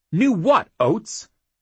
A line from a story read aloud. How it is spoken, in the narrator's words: Jackal was nearly shouting